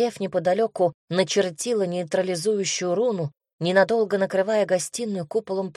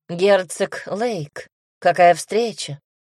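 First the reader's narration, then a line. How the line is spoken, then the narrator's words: Cold. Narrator (Russian): холодно произнесла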